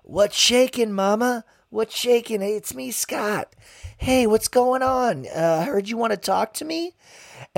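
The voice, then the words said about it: Imitates another person's voice. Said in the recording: “I did so good with the Scott imitation 2 weeks ago. Now I feel like it's falling off a little bit.”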